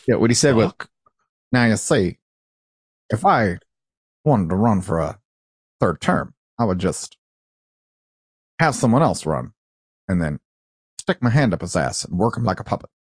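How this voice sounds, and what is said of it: Imitates another person's voice. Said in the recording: “Pretty good impression,”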